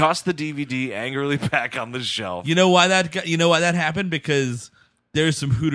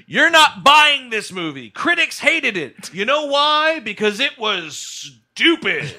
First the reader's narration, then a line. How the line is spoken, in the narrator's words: shouted, not just uttered, shouted